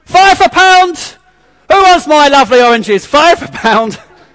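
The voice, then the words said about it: London market trader shouting accent. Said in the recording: “The London accent comes out there.”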